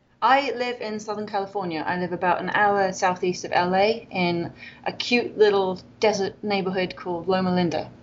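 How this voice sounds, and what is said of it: British accent. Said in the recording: “you are obviously British from your voice, we can tell. ... I'm British.”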